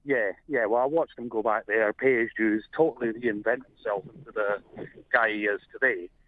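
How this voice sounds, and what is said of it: Scottish accent. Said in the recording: “as you can guess from my accent, I'm not actually Australian. I'm originally from Scotland.”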